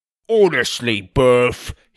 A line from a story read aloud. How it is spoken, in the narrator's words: barked